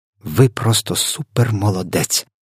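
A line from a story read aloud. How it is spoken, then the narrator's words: Whisper. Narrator (Ukrainian): прошепотіла Софія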